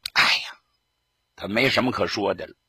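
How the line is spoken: Long sigh. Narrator (Chinese): 贺龙长叹了一声

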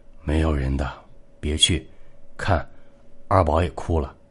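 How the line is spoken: Whispered. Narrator (Chinese): 表舅 他小声道

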